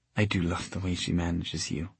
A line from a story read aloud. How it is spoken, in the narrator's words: she whispered